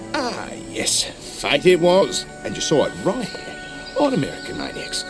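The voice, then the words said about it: Exaggerated Australian accent. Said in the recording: “a chaotic Nancy Grace-type TV journalist character who happens to be Australian ... His character's accent is one of the most disturbing things about the film.”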